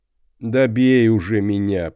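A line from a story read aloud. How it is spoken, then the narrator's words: Moaning. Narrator (Russian): простонал Росс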